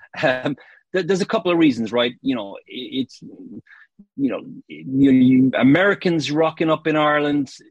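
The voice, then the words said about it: Irish accent. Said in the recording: “you've picked up the accent. I'm from Ireland originally.”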